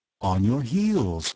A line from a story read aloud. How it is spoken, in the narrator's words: I replied gently